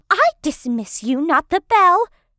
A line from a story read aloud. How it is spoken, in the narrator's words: my teacher yells after me